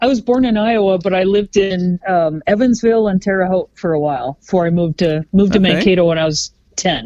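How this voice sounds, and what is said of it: Minnesota accent. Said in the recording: “I've got a Minnesota accent”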